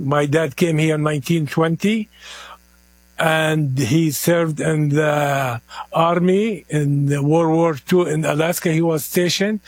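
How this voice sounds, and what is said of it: Heavy foreign accent. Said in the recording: “I have a heavy accent”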